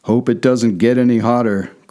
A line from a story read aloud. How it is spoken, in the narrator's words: growled